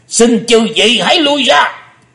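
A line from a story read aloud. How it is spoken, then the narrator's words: Thunderous roar. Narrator (Vietnamese): Âm Ma giáo chủ mới gầm to tợ sấm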